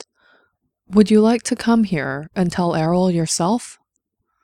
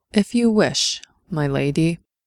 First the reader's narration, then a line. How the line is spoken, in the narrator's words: he said calmly